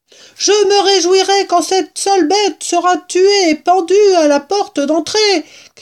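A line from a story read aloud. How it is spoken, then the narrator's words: Shouted. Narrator (French): cria-t-elle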